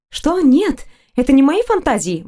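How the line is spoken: Embarrassed exclamation. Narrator (Russian): воскликнула опять краснея

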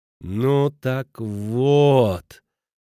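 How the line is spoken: Stern southern singsong. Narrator (Russian): говорит он строгим, по-южному напевным голосом

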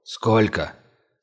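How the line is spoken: Hoarse question. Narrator (Russian): севшим голосом спросил Званцев

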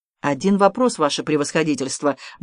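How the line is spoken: Quick. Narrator (Russian): быстро сказал Гиацинтов

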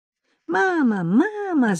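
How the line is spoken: Nasty shrill squeal. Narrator (Russian): заверещала жертва противным визгливым голосом

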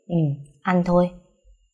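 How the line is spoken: Soft laugh after pause. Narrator (Vietnamese): Phương hơi ngẩn ra vài giây, cuối cùng khẽ cười

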